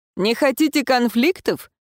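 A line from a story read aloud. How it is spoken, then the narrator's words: Wry snort. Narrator (Russian): хмыкнул разговорчивый, очевидно, глава встретившего нас отряда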